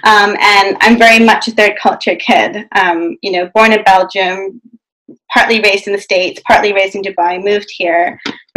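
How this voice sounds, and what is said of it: Non-local accent. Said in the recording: “as you can tell from the accent, I didn't grow up here”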